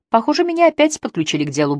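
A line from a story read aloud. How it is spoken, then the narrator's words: Cheerful, sincere. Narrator (Russian): бодро сказала она, со всей возможной искренностью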